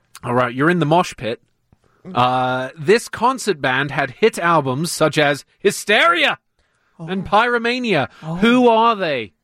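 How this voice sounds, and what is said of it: Kent English accent. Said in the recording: “Is this truly a Kent accent? ... It's truly a Kent accent.”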